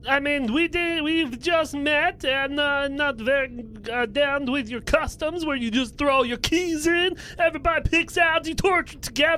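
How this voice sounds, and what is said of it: Put-on foreign villain accent. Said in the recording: “He sounds like a furner. ... You can tell by my accent, I'm a bad guy”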